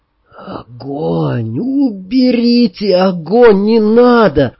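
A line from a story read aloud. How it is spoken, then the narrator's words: Delirious moaning. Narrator (Russian): Застонал я, не открывая глаз и не понимая, что со мной происходит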